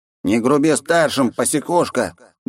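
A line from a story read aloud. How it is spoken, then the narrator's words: Displeased grumble. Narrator (Russian): недовольно проворчал моб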